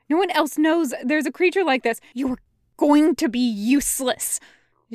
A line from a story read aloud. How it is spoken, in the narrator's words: Zhang Cheng hisses